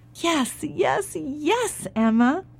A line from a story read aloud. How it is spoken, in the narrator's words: cried the farmer, the farmer's wife, and the farmer's children